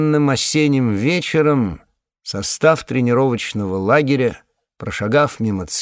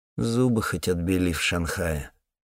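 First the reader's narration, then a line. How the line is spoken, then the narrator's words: Muttered after someone. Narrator (Russian): пробормотал я ему в спину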